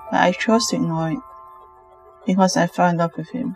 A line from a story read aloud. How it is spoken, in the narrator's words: Lena said sadly